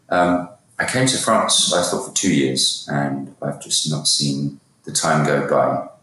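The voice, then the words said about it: British English accent. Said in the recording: “You can probably tell from my accent, I'm originally from the UK.”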